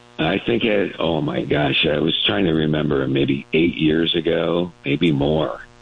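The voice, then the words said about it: Unusually deep voice. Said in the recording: “You have an unusual voice. ... By this deep voice.”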